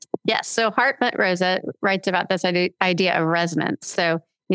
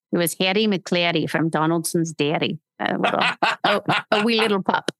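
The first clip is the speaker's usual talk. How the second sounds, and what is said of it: Put-on Scottish accent. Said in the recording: “do the Scottish accent ... we would read to our kids in a Scottish accent”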